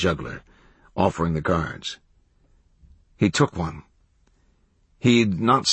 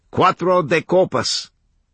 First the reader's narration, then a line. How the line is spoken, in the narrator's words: he called out